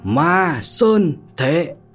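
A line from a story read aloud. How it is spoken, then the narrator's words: Shouted by two. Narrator (Vietnamese): tiếng hét của hai người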